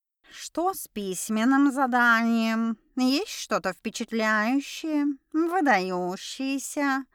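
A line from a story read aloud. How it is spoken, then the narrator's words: Ironic drawl. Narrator (Russian): Не скрывая иронию в голосе, протянула это мохнатое пристанище для блох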